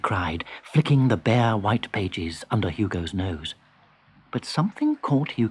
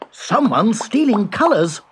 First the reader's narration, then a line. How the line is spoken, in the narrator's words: cried Hugo